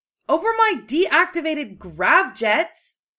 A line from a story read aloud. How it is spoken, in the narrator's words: shouted a coarse female voice